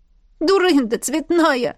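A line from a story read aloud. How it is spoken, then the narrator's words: Sobbing. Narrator (Russian): всхлипнула я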